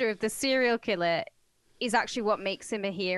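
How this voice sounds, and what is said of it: Usual voice. Nothing is said of it.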